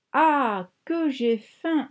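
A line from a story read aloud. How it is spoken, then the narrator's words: Moaned. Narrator (French): a-t-il gémi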